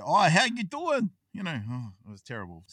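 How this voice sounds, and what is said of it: Stereotypical New York accent. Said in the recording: “putting on New York accent... Stereotypical.”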